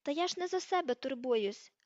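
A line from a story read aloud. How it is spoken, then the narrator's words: Exclaiming. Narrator (Ukrainian): вигукнув Гаррі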